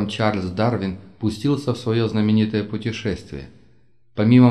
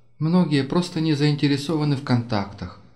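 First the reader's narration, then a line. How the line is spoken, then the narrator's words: Sighing. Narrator (Russian): вздохнула Керрис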